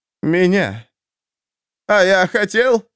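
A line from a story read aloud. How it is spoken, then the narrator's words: Exclaimed. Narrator (Russian): воскликнул Фридрих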